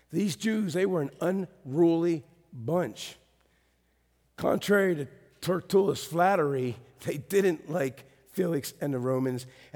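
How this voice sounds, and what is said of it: Cracking, rough voice. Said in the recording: “my voice is so cracky”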